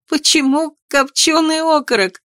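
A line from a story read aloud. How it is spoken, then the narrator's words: Groan through laughter. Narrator (Russian): простонала я сквозь смех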